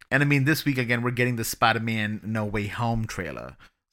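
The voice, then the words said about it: Sassy put-on New York accent. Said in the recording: “That was my New York accent. ... Yeah, was New York. ... It's sassy. ... It was a sassy New York. ... Sassy Puerto sassy. Rican. ... It's Queens. ... It's a little bit of In the Heights.”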